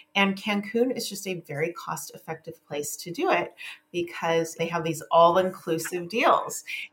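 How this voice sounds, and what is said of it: Non-Australian accent. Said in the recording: “your accent suggests that you didn't grow up in Australia”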